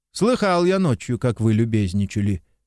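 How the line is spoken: Plain. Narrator (Russian): сказал Лопахин

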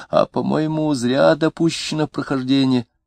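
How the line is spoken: Weak, husky, glum voice. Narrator (Russian): Третий голос, слабенький и сиплый, уныло сказал

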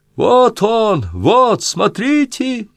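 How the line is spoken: Sudden shout. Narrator (Russian): Да как крикнет

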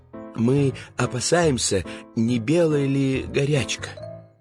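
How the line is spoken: Hesitant, very quiet. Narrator (Russian): помялся и совсем тихо добавил

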